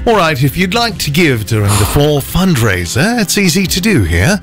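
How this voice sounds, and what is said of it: Put-on English accent. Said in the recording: “I can also do an English accent ... it's not too bad.”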